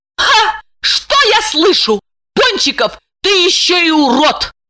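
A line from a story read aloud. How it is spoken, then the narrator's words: Shout. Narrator (Russian): Закричала она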